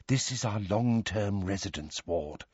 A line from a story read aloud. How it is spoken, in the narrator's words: she informed Harry, Ron, Hermione and Ginny in a low voice